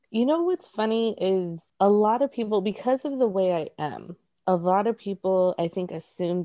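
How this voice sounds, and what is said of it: Latina accent. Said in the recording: “your beautiful Latina accent”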